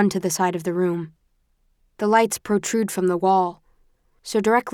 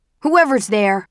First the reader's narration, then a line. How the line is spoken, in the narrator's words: a voice shouts